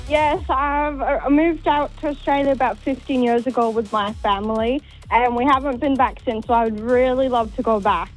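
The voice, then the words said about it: Slight Welsh accent. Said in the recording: “I think I spot a bit of an accent there ... Oh, you're from Wales, are you?”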